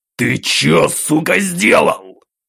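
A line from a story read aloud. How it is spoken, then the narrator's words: Growling. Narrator (Russian): зарычал Кэп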